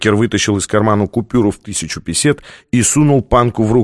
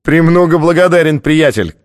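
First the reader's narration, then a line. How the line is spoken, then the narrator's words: Shout after someone. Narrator (Russian): крикнул тот ему вслед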